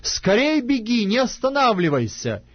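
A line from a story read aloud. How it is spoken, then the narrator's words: Shouting after someone. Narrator (Russian): кричал Иенофан вслед отроку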